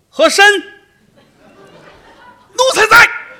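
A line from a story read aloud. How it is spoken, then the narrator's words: Emperor calling out. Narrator (Chinese): 皇上已经喊了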